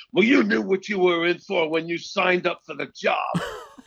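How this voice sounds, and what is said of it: Yelling impression of Alex Cox. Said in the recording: “He started yelling at me ... That's a great impression of him, by the way.”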